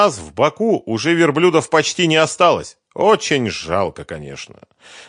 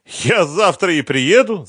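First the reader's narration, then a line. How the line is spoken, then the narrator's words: Laughing. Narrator (Russian): засмеялся Велиев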